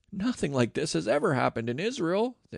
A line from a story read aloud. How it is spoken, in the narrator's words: exclaimed